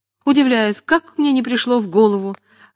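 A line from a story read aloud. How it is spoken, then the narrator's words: Desperate exclamation. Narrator (Russian): в отчаянии воскликнул хозяин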